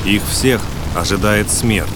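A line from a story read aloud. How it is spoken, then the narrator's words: Calm. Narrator (Russian): спокойным голосом закончил Трер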